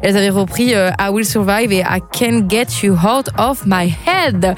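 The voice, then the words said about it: Speaks English titles with French accent. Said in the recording (French): “mon accent d'anglais, c'est grave amélioré ... ton accent, il est nul”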